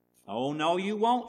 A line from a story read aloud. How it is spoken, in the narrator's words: shouts Pig Will